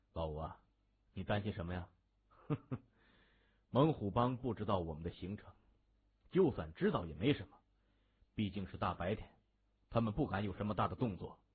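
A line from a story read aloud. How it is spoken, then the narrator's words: Smiling, reassuring. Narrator (Chinese): 谢文东反而含笑安慰他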